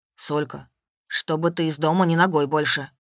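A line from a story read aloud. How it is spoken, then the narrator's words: Stern. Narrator (Russian): строго сказал Славка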